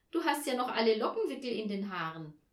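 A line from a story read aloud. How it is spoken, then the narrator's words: Calling out, laughing. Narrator (German): rief Olaf und lachte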